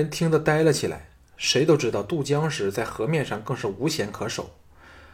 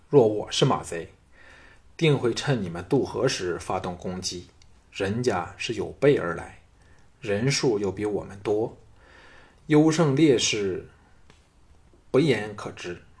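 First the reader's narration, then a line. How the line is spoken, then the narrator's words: Deep, grave voice. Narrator (Chinese): 项少龙沉声说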